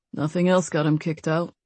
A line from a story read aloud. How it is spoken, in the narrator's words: Nate mumbled